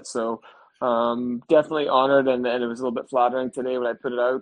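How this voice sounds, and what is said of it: Northern Irish accent. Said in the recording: “I can hear you're working on your Northern Ireland accent now that you're retired. ... you can definitely hear the difference coming out”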